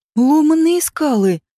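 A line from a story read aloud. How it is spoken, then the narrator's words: Sudden joyful exclamation. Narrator (Russian): неожиданно радостно вскрикнул Соош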